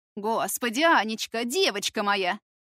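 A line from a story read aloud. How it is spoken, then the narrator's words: Loud exclamation. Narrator (Russian): громко восклицает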